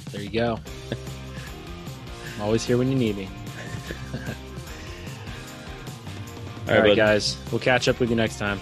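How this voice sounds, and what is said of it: Pennsylvania American accent. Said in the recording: “hearing that Pennsylvania accent”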